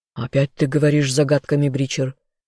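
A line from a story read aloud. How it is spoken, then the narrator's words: Dragon's growl. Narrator (Russian): рыкнул на менталиста дракон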